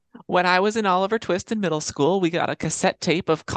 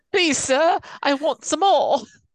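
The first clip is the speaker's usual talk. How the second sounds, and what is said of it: Put-on Cockney British accent. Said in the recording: “Cockney British, and that is the only British that I know how to do ... You sound like Jason Statham.”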